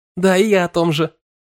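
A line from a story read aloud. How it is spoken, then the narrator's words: Joyful chiming in. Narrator (Russian): радостно подхватила Эвелина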